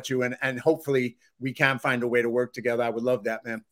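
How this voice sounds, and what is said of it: Slight Boston accent. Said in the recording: “they hear Boston in my accent ... that little Boston accent”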